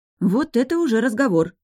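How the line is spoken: Carried-away exclamation. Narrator (Russian): забывшись, воскликнула

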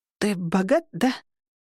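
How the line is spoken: Hoarse rasp. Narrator (Russian): прохрипела я

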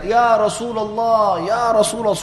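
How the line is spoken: Deliberately loud. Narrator (Indonesian): suara keras sengaja

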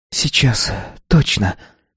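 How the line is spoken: Whispered. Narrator (Russian): прошептала она

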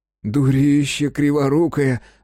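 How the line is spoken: Joyful, indignant exhale. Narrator (Russian): радостно и возмущенно выдохнул Зайцев

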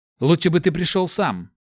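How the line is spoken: Sharp blurt. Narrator (Russian): резко выпалил Март

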